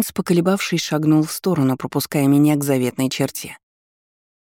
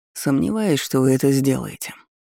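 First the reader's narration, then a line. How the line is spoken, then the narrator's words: Quiet reply. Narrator (Russian): негромко отозвался тот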